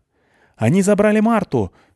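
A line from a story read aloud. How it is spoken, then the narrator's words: Shouting. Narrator (Russian): крикнула мне Клюся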